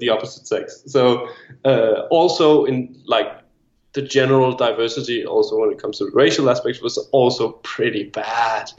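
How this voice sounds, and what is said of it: Danish accent in English. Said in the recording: “is from Denmark ... That's where the accent comes from ... it's my second language.”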